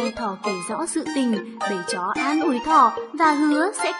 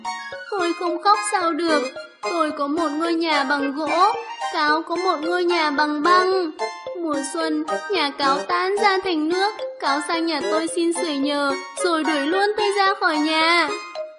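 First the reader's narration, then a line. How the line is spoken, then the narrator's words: Whimpering, near tears. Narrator (Vietnamese): Thỏ mếu máo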